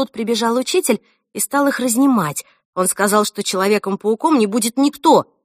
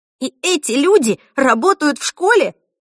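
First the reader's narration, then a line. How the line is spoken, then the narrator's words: Shocked exclamation. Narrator (Russian): воскликнула она в шоке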